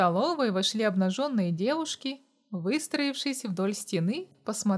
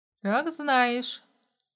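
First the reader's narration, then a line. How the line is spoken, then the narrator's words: Snorting. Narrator (Russian): фыркнул Семен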